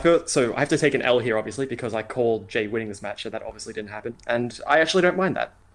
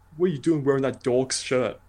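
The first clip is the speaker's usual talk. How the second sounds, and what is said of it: Put-on British accent. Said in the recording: “some British guy... in you know, that accent.”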